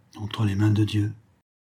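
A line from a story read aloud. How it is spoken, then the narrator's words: Murmur. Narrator (French): murmura-t-elle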